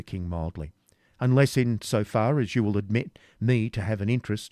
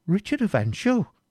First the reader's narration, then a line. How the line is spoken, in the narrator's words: exclaimed Cedric, with the utmost astonishment